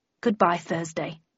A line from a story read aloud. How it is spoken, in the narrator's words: muttered Landon